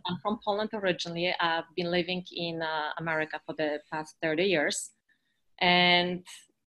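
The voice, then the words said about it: Eastern European accent. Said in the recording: “I'm Eastern European, as you've noticed from my accent.”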